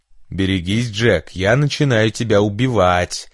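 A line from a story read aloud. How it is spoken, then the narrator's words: Menacing playful shout. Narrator (Russian): страшным голосом прокричала Марша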